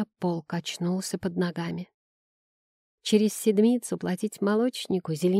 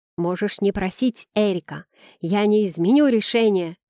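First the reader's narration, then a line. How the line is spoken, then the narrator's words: Angry man shouting. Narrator (Russian): крикнул зло настроенный мужчина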